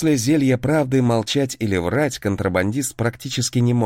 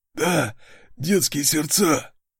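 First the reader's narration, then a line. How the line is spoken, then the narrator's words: Hoarse, half-choked. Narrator (Russian): Сипло ответил он, когда я немного разжал хватку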